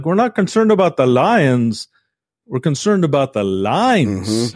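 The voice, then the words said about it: Put-on Irish accent. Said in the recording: “doing an ethnic. This is an ethnic accent. Clearly, the employees were Irish.”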